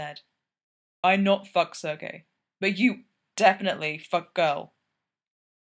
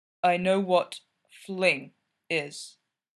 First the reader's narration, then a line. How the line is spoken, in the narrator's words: Gino said slowly, but not down low